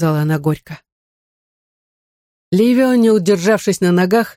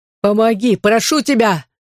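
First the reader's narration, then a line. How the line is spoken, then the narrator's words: Desperate shout. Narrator (Russian): закричал он в отчаянии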